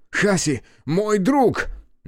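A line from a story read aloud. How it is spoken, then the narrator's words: Breathless shout. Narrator (Russian): Кику, задыхаясь, закричал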